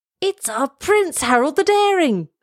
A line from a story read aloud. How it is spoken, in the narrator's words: They shouted